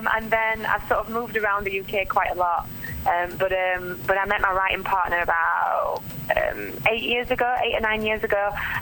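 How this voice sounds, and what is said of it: South Yorkshire English accent. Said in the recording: “I'm from South Yorkshire originally, um, hence the accent. ... Yes, I love the accent. It's very cute.”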